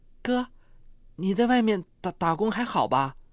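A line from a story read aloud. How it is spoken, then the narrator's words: Nervous stammering. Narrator (Chinese): 陈丽霞很紧张，结结巴巴地说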